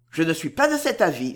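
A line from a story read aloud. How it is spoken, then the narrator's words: Brisk, quick. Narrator (French): fit-il vivement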